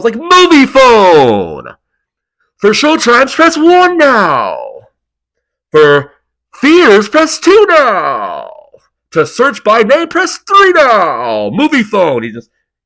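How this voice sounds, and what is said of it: Movie phone announcer voice impression. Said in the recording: “do the movie phone guy ... do the movie phone voice”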